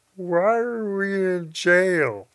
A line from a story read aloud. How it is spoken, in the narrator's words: he slurred